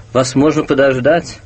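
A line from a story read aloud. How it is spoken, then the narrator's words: Indignant yet gentle. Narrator (Russian): тот же голос, возмущенно ласковый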